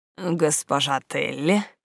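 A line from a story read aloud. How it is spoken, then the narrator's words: Breathy exhale. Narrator (Russian): выдохнул он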